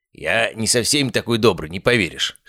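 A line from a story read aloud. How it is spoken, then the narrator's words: Scoffing snort. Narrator (Russian): хмыкнул целитель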